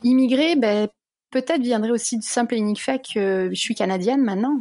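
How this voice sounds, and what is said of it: Slight Canadian French accent. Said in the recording (French): “tu as l'accent canadien, c'est fou. ... pas aussi fort que tu peux l'entendre dans un village perdu au fin fond du Canada, mais il y a quand même un sacré petit son canadien ... il y en a un petit.”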